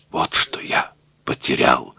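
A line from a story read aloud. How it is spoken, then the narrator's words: Old man whispering. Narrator (Russian): шептал старик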